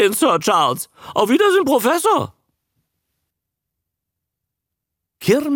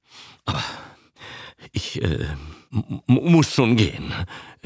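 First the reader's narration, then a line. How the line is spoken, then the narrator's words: Grumbling. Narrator (German): brummte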